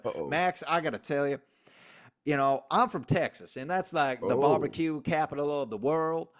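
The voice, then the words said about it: Put-on Southern American accent. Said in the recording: “that's a hell of an accent. That's a hell of an accent ... I'm getting good at my Southern accents”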